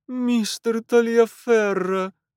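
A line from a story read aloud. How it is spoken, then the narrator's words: Moaning. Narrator (Russian): простонала хозяйка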